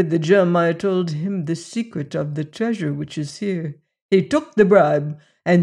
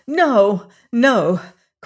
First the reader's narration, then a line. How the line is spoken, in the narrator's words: cried Juana